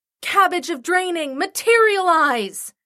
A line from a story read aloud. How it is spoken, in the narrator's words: I shouted